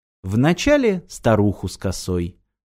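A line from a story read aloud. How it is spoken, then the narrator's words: Calm reply. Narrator (Russian): спокойно ответила Ирина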